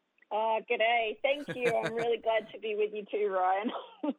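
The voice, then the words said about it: Australian accent. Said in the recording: “You're going to hear that Australian accent.”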